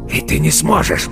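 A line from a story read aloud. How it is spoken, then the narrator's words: Hoarse wheeze. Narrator (Russian): прохрипел он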